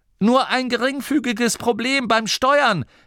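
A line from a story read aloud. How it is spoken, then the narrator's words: Cheerful call. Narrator (German): rief heiter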